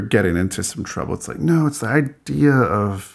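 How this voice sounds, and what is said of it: Usual voice. Nothing is said of it.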